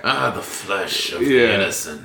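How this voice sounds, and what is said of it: Vampire-like voice through clenched teeth. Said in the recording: “do an impression of Byron, do the voice ... Teeth clenched ... We'll always make Byron sound like a vampire.”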